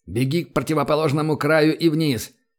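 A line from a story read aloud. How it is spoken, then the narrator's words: Shout. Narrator (Russian): крикнул Гатриан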